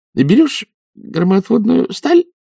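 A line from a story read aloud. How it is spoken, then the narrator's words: Uncertain. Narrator (Russian): сказала она неуверенно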